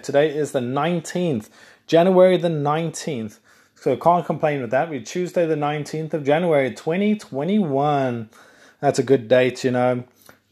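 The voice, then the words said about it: South African English accent. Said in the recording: “I'm South African. I'm not Australian if anyone's listening thinking you sound Australian. I am South African. And if you think I don't sound South African, well, I am South African.”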